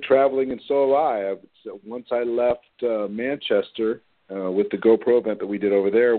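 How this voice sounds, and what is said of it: Voice a little low today. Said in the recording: “My voice is a little bit low today, so everybody will have to excuse me.”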